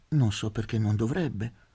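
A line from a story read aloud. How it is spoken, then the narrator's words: Gentle retort. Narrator (Italian): ribatté dolcemente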